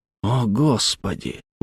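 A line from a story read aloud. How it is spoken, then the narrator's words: Breathless exhale. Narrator (Russian): выдохнул Грант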